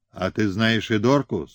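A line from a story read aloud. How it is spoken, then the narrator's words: Plain question. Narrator (Russian): спросил Симонов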